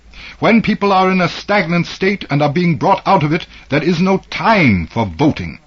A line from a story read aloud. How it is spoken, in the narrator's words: He almost shouted in his fervor